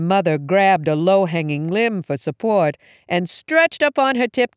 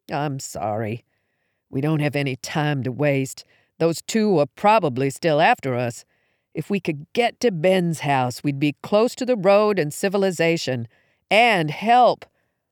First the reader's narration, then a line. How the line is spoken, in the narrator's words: With my head on my knees, mumbled